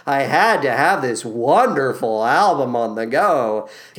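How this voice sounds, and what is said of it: Sarcastic tone. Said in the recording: “Can you tell I'm being sarcastic?”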